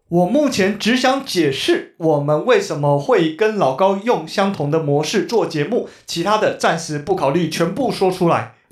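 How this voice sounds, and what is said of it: Imitating 老高's accent and tone. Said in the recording (Chinese): “我尽力模仿这个口音跟语气了”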